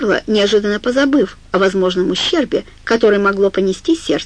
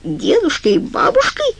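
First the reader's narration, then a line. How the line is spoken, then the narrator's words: Shrieking woman. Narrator (Russian): взвизгнула она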